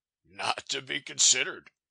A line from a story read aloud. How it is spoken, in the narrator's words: he laughed